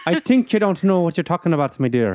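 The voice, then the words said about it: Bad put-on Irish accent. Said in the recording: “your accent is worse ... Oh, no, it keeps getting bad.”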